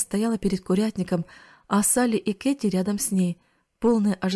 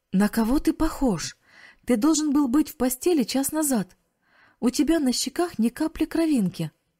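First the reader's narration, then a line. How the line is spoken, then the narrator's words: Exclaiming. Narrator (Russian): воскликнула тетя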